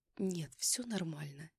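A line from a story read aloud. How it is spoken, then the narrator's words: Quiet smiling reply. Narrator (Russian): тихо ответила я, улыбнувшись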